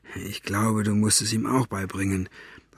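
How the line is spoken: Whisper through bars. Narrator (German): raunte Staubfinger durch das Gitter

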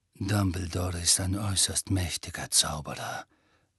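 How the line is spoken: Murmuring. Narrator (German): murmelte Snape

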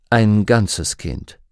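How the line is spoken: Calm. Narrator (German): sagte Lord Asriel ruhig

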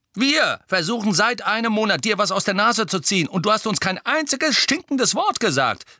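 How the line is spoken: Calling out. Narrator (German): rief George

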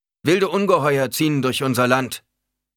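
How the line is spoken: Preacher continuing loudly. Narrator (German): fuhr der Prediger mit lauter Stimme fort

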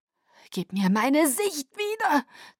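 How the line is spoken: Hiss. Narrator (German): zischte Tanya

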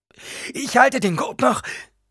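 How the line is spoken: Panting. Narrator (German): keuchte

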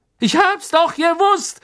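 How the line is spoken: Gloating call. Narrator (German): rief Stan schadenfroh

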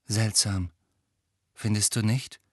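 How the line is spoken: Quiet voice. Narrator (German): sagte Cho mit leiser Stimme

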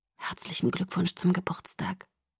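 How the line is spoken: Whispering. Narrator (German): flüsterte er

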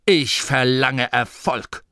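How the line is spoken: Growled. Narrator (German): knurrte

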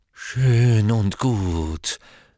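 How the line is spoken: Deeply hurt voice. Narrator (German): sagte Professor Trelawney mit tief gekränkter Stimme

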